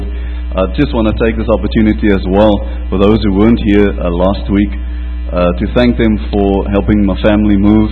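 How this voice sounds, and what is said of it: Southern drawl accent. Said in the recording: “I sound a little bit different from, I don't know, that's what they call that southern drawl”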